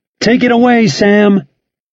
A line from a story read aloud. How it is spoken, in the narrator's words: Schartzer yelled